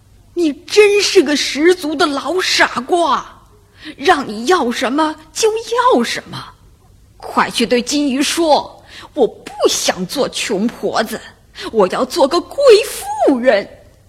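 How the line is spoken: Yelling loudly. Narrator (Chinese): 老太婆就大吼大叫

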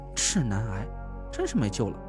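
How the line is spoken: Muttering. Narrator (Chinese): 田慧文嘟囔了一句

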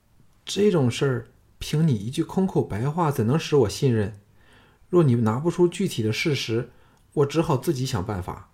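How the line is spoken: Dazed, sighing. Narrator (Chinese): 董淑贞怔怔的瞧了他好半晌后，才叹道

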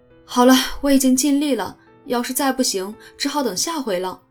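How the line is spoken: Loud shout. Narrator (Chinese): 乔 大喊一声

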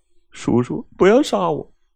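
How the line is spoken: Tearful pleading child. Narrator (Chinese): 孩子流着泪，苦苦的哀求着说道

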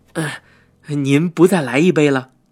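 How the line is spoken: Plain. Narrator (Chinese): 姥姥说道

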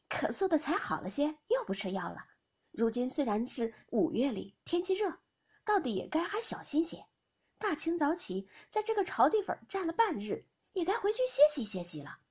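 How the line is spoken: Laughing. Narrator (Chinese): 紫娟笑道

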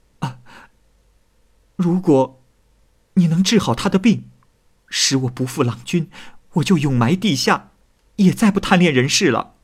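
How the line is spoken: Urgent pleading. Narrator (Chinese): 李姑娘急忙…跪求，说

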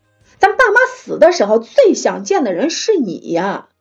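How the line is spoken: Furious, breaking voice. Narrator (Chinese): 妹子 对白毛怒气很大 吼了他一声 声音崩溃道

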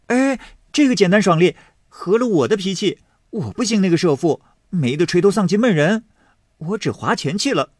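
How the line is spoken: Laughing. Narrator (Chinese): 史湘云笑着说

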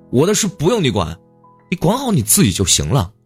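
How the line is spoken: Furious roar over phone. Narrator (Chinese): 多次的劝告无效后，你终于发了火，在电话里朝父亲怒吼

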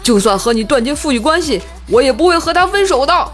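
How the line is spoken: Anxious, shouting. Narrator (Chinese): 我老公急了，大喊道

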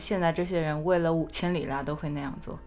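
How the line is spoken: Flat, indifferent. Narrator (Chinese): 然后他的朋友淡淡的说

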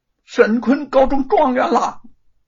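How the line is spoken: Breathless excited shouting. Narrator (Chinese): 叶云口里大声的喘着气，冲动的大声的朝着吴承恩嚷嚷道

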